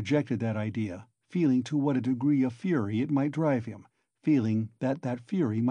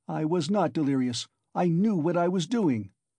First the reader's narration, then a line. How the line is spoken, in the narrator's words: he cried